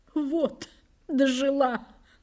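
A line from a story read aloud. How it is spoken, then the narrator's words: Tearful female voice. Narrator (Russian): проговорила она сквозь слезы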